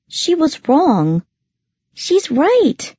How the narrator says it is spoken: Lyssa exclaimed

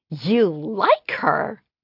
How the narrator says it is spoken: She squealed

